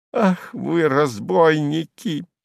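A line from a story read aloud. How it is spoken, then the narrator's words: Groan. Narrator (Russian): застонал Слёткин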